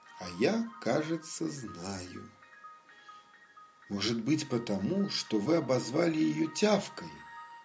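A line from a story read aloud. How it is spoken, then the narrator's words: Plain. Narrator (Russian): сказала мама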